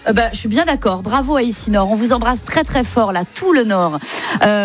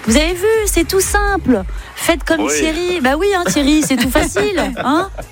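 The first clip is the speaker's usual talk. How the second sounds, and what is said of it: Put-on Belgian French accent. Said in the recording (French): “j'ai pris l'accent belge.”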